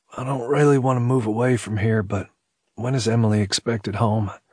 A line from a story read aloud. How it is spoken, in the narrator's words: he said in a sleepy voice